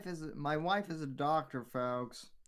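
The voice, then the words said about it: Impression of Benji. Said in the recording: “good fucking Benji impression”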